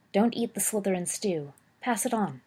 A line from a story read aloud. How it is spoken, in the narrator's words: Sirius whispered to the girl sitting there